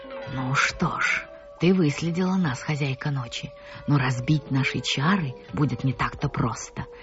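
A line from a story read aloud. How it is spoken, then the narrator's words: Slow, clipped, furious whisper. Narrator (Russian): медленно отчеканивая каждое слово, шептал разъяренный гигант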